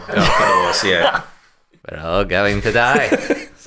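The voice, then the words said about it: Imitates another person's voice. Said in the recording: “my only Donald Pleasance impression”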